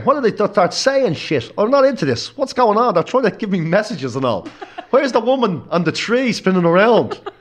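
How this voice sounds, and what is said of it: Put-on accent imitating another person. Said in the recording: “What's that accent? ... That's the accent I always do for me, dad.”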